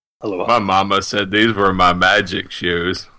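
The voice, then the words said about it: Good Forrest Gump impression. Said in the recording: “That's actually a pretty good Forrest Gump impression. ... So it's not too bad.”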